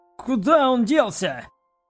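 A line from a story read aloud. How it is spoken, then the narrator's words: Mercenary shouting. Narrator (Russian): прокричал один из наемников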